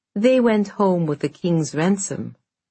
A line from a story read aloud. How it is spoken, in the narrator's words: said Morozko dryly